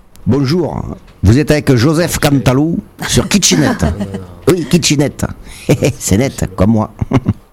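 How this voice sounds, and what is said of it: Southern French accent. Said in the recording (French): “le même accent, un petit peu ... du sud.”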